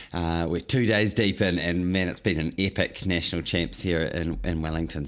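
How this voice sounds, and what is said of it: Scratchy, rusty hoarse voice. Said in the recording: “You can probably hear it in my voice. It's a bit scratchy, a bit rusty.”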